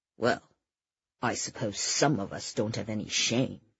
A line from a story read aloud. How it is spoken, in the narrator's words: Eddie muttered under his breath